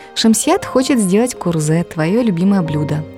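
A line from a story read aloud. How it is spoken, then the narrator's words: Plain. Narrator (Russian): ответила Хаписат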